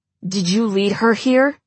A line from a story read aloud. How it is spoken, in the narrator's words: Flint growls